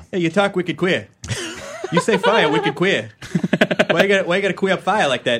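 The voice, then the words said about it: Put-on Boston accent. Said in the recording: “That's good. ... That's great. Good. So I can insult people with a Boston accent.”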